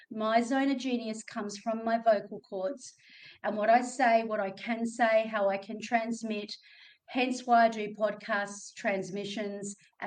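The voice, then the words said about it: Australian accent. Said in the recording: “my Australian accent ... everybody always comments on my voice and my accent”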